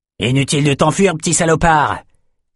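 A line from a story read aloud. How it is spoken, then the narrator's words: Man shouting. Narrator (French): cria le type au bras court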